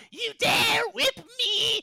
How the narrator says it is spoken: Gray Aura Fish Shuffler curses you

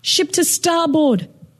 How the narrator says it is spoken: she yelled

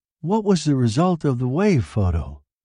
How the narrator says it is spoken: Janet asked

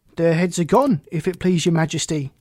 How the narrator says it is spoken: the soldier shouted in reply

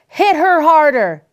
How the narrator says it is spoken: called out

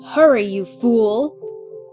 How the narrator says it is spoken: Cake Baby snarled

